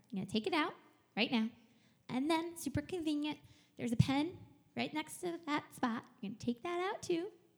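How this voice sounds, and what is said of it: Instructive teacher voice. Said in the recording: “This is like my teacher voice.”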